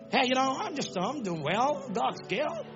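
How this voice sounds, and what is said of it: Put-on foreign accent. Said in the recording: “You went and came back with accent.”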